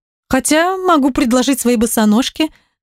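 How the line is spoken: Laughing harder. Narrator (Russian): засмеялась пуще прежнего

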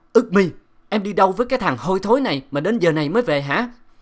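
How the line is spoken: Loud angry shout. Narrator (Vietnamese): Ông quát lớn

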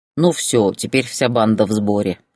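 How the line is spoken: Smirking snort. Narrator (Russian): хмыкнул Ярослав

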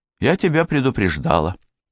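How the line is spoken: Dry, curt. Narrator (Russian): сухо сказала Мэри

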